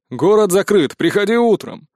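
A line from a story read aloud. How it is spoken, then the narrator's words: Shouted reply. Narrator (Russian): тут же прокричали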